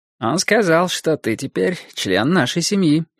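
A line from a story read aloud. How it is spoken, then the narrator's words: Bored tone. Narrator (Russian): скучающим тоном сказал Борис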